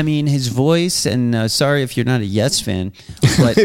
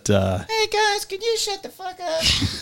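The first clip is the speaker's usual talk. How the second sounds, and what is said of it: High-pitched imitation of another person. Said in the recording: “He's got such a high voice.”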